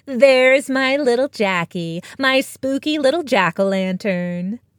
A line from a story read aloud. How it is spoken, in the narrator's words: Maggie cooed